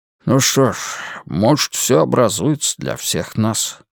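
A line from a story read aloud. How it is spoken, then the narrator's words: Mumbling. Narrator (Russian): промямлил Уитни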